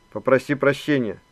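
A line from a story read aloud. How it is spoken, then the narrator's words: Stern command. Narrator (Russian): строго велела Нюра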